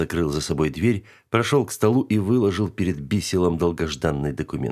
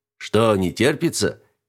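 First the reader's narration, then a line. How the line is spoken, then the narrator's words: Chuckling. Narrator (Russian): Даллес хохотнул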